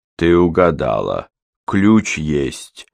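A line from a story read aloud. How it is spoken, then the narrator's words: Calm. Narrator (Russian): спокойно сказал Кортман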